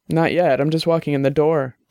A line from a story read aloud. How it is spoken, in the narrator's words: Dex said